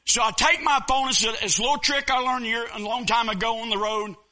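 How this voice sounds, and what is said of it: Southern American accent. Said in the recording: “I know I'm a Southern boy... my dialect, my accent”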